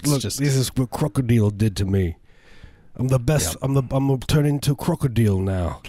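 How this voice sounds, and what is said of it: Put-on Australian accent. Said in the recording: “that's my accent. ... That's my Australian accent. It's perfect. ... Impeccable.”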